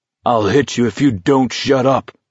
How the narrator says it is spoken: Abraham bellowed

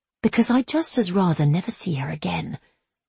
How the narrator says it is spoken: she said quietly

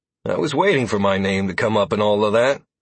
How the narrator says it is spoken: I replied dryly

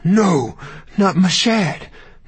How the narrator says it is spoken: Matilda cried

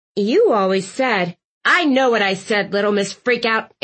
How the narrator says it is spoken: Aunt Tilly snapped

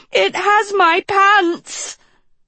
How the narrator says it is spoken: Dot shrieked, an asp's fangs digging into her breeches

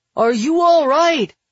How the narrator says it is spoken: Billy shouts

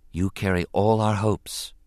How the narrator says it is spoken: she said quietly

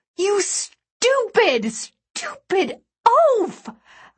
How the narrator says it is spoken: I screeched

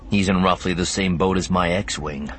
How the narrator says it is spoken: Luke said dryly

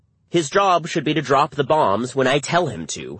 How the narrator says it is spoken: Holbrooke told our team testily

